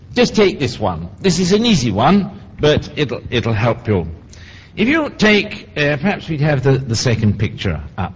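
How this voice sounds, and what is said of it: Speaks with a noticeable accent. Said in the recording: “so you get used to my accent”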